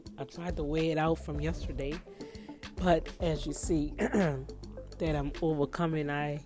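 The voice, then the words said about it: Hoarse voice. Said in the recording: “Please forgive my hoarseness.”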